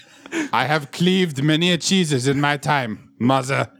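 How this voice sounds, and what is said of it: Exaggerated put-on accent. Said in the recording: “We are all over the place in accents ... I am horrible at accents”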